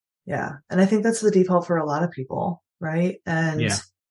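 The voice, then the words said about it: Emotional voice. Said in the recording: “Ooh, I'm getting emotional again.”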